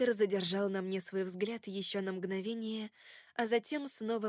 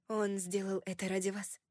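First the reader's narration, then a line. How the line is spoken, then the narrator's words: Quiet. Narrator (Russian): тихо произнесла я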